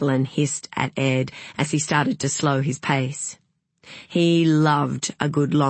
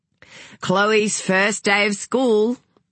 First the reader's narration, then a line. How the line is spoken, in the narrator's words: Ed called out